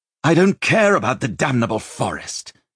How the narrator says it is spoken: he snapped

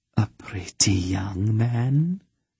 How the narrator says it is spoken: she breathed, almost as if to herself

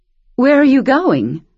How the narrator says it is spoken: Miss Sophia asked nervously

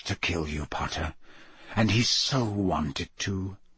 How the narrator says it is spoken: whispered Moody

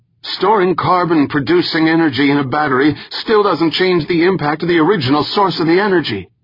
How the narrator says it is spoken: someone shouted from the back of the crowd

